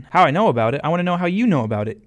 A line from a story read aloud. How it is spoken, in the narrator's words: yelled back Malachi